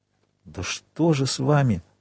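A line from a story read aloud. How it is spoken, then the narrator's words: Whispered repetition. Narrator (Russian): шепотом повторил Дебре госпоже Данглар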